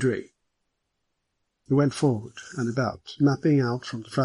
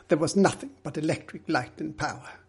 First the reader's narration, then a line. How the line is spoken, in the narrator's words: Middleton replied firmly